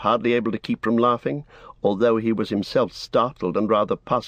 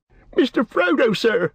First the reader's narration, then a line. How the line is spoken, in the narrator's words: cried Sam, quaking